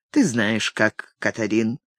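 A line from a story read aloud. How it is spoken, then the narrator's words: Velvety voice. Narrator (Russian): произнес бархатным голосом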